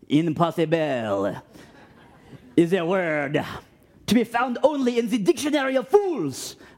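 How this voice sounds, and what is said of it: Put-on French accent. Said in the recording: “that's my last French accent attempt for you guys.”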